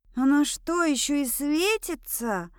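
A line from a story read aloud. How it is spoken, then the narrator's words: Hoarse question. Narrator (Russian): Хрипло поинтересовалась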